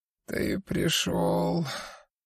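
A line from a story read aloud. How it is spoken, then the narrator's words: Dying voice. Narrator (Russian): умирающим голосом сказал Дон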